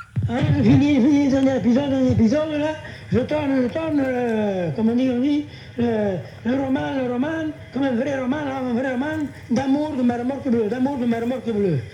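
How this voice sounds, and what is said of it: Strong accent. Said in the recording (French): “comme il a un accent fort”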